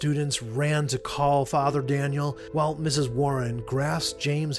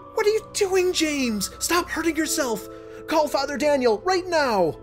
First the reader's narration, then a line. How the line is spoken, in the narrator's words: screaming